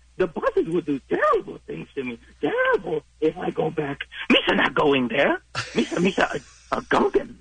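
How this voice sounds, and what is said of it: Jar Jar Binks character voice. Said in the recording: “I'm going to do a fan favorite, Jar Jar Binks ... I sort of love that impression”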